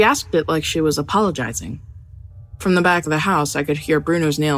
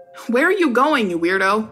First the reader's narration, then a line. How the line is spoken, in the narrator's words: I shouted after him